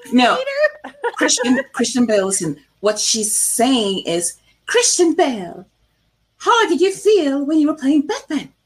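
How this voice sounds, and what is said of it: Welsh accent. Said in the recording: “This is how we say it in Wales. My native homeland. ... In that voice. ... in the Welsh accent.”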